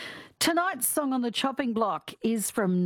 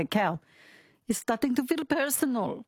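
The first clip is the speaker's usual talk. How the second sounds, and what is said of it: Bad put-on French accent. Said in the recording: “That's my French accent, which is very bad”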